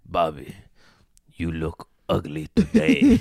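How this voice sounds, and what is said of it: Imitates another person's voice. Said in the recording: “my impersonation of Bobby Lee impersonating his father”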